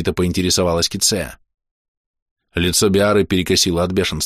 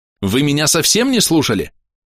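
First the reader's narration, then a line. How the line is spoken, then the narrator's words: Barking snap. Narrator (Russian): рявкнула Биара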